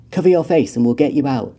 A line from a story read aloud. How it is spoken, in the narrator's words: the distant voice shouting again